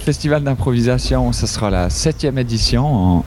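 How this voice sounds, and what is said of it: Put-on Vaudois Swiss French accent. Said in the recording (French): “je vais faire une partie avec l'accent vaudois ... je vais continuer un peu avec l'accent vaudois pendant un petit moment”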